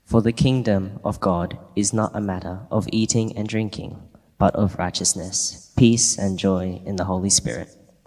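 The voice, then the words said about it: Great radio voice. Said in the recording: “You got a great radio voice”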